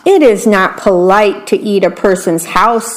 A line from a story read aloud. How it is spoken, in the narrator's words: said the worm